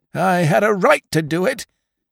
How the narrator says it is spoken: cried Jones

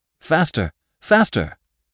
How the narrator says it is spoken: he cried to the driver

